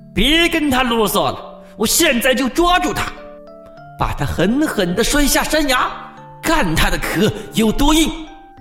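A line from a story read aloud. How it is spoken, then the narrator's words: Eager, approving. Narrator (Chinese): 狐狸连忙叫好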